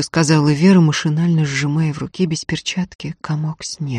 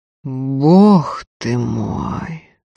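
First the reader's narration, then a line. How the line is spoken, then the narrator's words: Mumbling. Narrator (Russian): пробормотал Закатов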